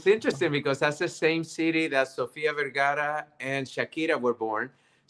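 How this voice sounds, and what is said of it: Colombian Spanish accent. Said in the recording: “a little sexy accent. ... That, that's from Colombia, South America.”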